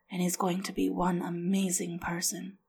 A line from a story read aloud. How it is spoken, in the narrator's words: Leo said quietly